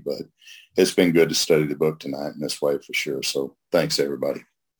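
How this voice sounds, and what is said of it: Hoarse, scratchy voice. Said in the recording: “I've kind of had a little bit of a cold this past week ... my voice being all hoarse and scratchy”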